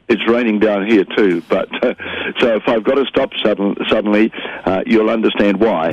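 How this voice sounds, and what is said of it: Congested voice from a head cold. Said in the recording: “I've got a head cold, so I've got a streaming nose.”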